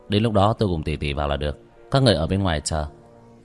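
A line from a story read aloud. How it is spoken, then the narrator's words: Cold, dismissive laugh. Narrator (Vietnamese): Vương Quân Diệt cười nhạt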